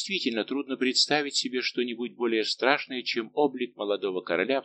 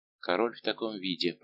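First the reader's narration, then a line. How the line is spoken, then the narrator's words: Minister's whisper. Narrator (Russian): прошептал королевский министр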